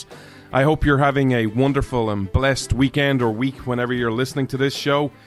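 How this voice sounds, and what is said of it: Irish accent. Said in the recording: “This Irishman stands with America ... you come for the accent”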